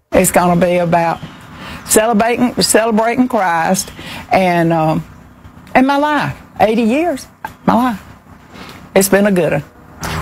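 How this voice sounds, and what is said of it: Georgia accent. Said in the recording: “She has perfect George accent, by the way... Just perfect.”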